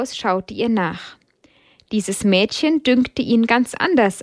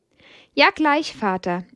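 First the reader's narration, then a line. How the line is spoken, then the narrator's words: Bright-voiced reply. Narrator (German): erwiderte sie mit heller Stimme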